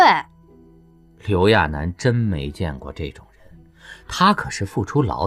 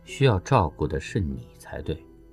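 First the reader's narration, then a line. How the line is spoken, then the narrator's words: Flat, indifferent reply. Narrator (Chinese): 对方淡淡的回复着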